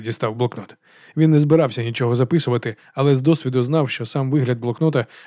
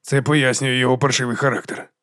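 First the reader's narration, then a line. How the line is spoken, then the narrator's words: Muttered. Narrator (Ukrainian): пробурмотів Ендрю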